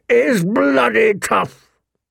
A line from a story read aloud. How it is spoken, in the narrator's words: he roared